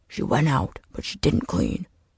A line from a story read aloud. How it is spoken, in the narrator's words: Marsh said, his voice low but laced with words sharp enough to pierce Lucas's dreams